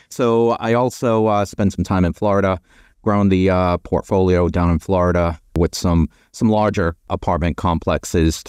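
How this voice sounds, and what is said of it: Boston accent. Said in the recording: “the Boston accent ... I haven't been able to ditch the Boston accent”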